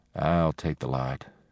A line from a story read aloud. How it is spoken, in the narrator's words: Penny said quietly